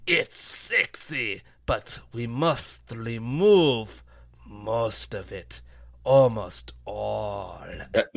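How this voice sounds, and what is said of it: Put-on German accent. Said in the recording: “that's a German accent.”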